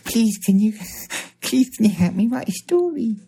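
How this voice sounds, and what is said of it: Weird childlike toddler voice. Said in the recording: “putting on a weird voice ... you've just regressed back into being a toddler”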